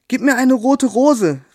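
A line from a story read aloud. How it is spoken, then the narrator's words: Calling out. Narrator (German): rief sie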